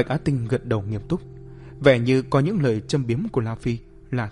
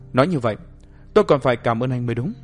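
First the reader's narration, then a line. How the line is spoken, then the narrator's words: Cold question. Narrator (Vietnamese): La Phi lạnh lùng hỏi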